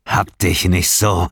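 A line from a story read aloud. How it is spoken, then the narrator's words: Hissing. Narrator (German): zischte er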